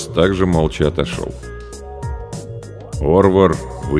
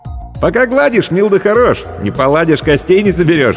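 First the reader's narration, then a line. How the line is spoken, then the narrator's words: Laughing. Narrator (Russian): рассмеялся охотник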